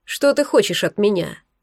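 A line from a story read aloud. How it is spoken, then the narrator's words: Cold question. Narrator (Russian): холодно спросил Булат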